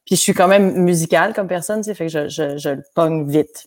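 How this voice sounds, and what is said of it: Hybrid accent leaning Québécois French. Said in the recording (French): “j'ai une espèce d'accent hybride, là, qui tend vers le québécois ici, qui tend vers l'accent français là-bas”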